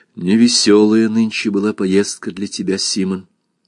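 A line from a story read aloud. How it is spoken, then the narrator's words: Quiet. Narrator (Russian): Кристин сказала тихо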